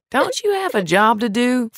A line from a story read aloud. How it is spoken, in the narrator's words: Frank asked sweetly